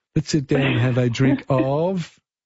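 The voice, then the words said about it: Poor put-on Greek accent. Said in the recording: “That's my Greek accent. It's terrible.”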